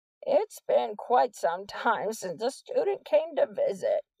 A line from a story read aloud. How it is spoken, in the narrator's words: the principal said in a wheezy voice